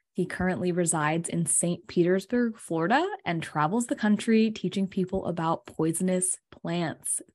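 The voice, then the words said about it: Relaxing smooth radio-announcer voice. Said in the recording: “That was a super relaxing intro. ... Awesome radio voice.”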